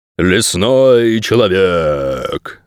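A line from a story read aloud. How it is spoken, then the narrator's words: Menacing growl. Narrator (Russian): зловеще прорычал он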